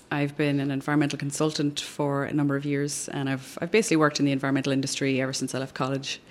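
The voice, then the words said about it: Irish accent. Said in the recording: “I'm originally from Ireland, which you can probably tell from the accent.”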